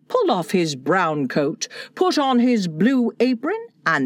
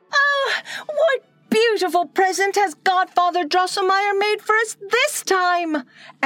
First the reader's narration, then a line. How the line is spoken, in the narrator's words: exclaimed Maria